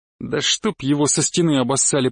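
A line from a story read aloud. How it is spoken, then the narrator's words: Grumbling. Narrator (Russian): проворчал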